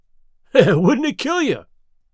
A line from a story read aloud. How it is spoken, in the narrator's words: He cried